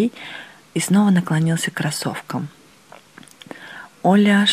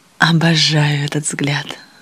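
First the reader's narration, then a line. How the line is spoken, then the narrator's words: Plain. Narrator (Russian): сказала Оля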